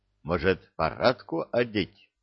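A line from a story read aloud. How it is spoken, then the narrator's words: Plain. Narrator (Russian): спросил Казарян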